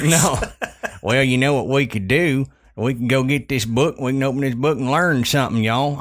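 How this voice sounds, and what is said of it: Southern American accent. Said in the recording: “this stupid Southern accent ... This is really how we talk ... Two Southern boys here”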